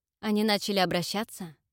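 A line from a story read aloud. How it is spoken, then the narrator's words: Unusually serious question. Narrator (Russian): Непривычно серьезным тоном уточнил Тедерик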